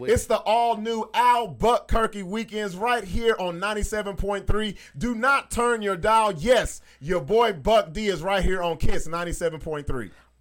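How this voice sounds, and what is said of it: Radio DJ announcer voice. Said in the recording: “Do that over with your radio voice.”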